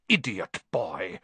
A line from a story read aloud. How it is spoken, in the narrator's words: snarled Snape